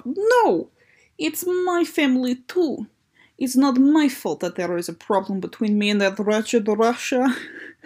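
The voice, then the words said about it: Put-on Russian accent. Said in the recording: “Too many R's for my Russian accent.”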